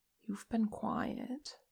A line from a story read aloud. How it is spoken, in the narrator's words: Che murmured